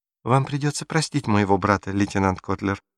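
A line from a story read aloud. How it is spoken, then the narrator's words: Cooing. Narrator (Russian): проворковала Гретель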